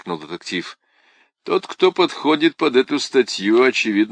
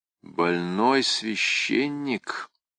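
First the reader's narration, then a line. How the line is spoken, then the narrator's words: Quiet repetition. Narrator (Russian): тихо повторил Каррас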